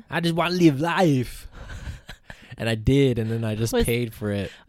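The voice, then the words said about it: Imitates a movie character's accent. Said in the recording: “Was that a Terminator accent?”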